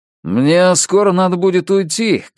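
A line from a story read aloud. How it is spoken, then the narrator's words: Shouted. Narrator (Russian): крикнул он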